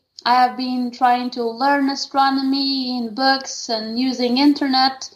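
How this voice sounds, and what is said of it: Non-native English accent. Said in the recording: “even though I don't speak very, very well English, my accent is not so good”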